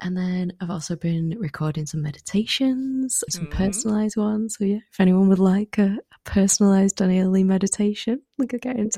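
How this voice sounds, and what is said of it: Calming, beautiful accented voice. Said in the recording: “you can hear her beautiful accent and voice. It's just like the most calming thing in the world.”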